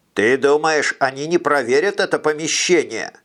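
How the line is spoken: Funny nasal voice. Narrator (Russian): Витя зажал себе нос и говорил смешным гнусавым голосом

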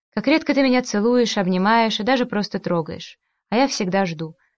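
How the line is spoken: Very quiet. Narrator (Russian): сказала она тихо-тихо

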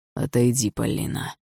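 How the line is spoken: Strange, altered voice. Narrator (Russian): чужим голосом сказал он

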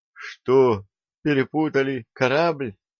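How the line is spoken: Horrified, forced out. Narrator (Russian): Кеша с нескрываемым ужасом выдавил из себя

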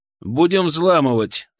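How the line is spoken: Loud. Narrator (Russian): громко сказал

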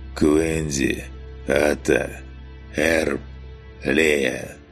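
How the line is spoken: Deliberate hoarse croak. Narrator (Russian): стараясь говорить четко, прохрипел

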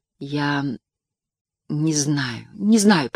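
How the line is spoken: Mumbled. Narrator (Russian): пробормотала Рэйти Придл

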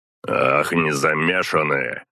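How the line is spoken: Growling. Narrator (Russian): прорычал ей

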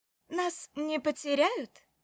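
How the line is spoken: Giggling question. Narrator (Russian): спросила она, хихикнув

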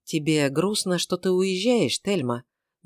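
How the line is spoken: Soft gentle question. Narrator (Russian): мягко спросил Эрингтон

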